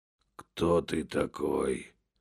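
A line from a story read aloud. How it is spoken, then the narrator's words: Hoarse weak whisper. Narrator (Russian): хрипло прошептал, так как силы совсем изменили ему, и он уже не мог говорить полным голосом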